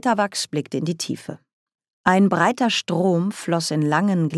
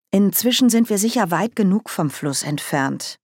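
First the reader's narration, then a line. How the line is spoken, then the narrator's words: Plain. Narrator (German): sagte Margaret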